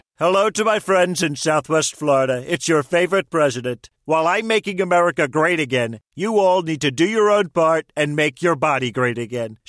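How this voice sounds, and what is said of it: Celebrity voice impersonation. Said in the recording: “Celebrity voice impersonation.”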